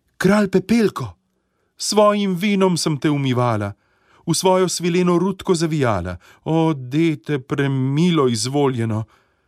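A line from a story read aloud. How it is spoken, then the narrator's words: Calling out. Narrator (Slovenian): kraljična zaklicala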